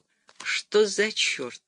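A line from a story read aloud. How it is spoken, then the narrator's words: Muttered. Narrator (Russian): пробормотал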